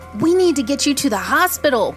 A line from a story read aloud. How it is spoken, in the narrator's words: shouted